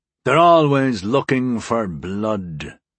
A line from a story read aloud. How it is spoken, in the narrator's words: Cade rumbled